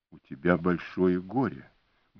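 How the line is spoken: Gentle remark. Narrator (Russian): мягко заметил он

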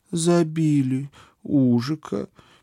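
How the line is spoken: Sad statement. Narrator (Russian): печально констатировала моя спутница

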